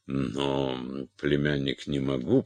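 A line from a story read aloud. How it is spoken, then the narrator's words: Mumbling. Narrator (Russian): пробормотал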